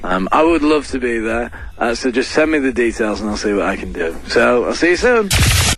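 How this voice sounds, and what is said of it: Rolling, run-together, slightly drunk-sounding speech. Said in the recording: “the rolling, like, no spaces between his words ... Was he trying to put on, like, a Scottish accent? ... it sounds like he's had a couple of drinks”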